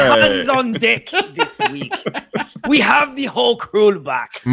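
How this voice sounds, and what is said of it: Usual voice. Nothing is said of it.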